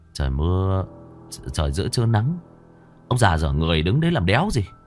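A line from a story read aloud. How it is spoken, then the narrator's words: Muttering. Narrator (Vietnamese): lầm bầm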